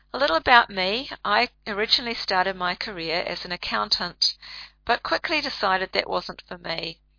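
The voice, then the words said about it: Noticeable regional accent. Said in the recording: “if you're not from this end of the world, you can take a little time to get used to my accent”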